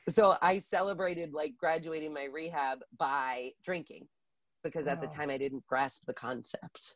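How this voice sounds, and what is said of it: Deep, sick-sounding voice. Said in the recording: “I'm a little under the weather, by the way, which is why I sound like a grown man.”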